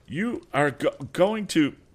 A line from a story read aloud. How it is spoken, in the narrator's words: stammered